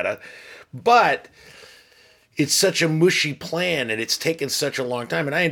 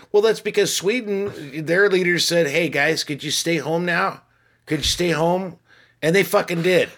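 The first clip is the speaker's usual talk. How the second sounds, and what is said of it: Put-on Swedish accent, sounds Canadian. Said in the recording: “I like your Swedish accent. That's good. ... It kind of goes into almost Canadian ... it's like Northern Wisconsin.”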